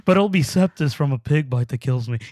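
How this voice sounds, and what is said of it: Imitates another person's voice. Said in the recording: “trying to do his voice... You're doing a great job... You know how he talks all sweet?... Obviously, I couldn't do it all well.”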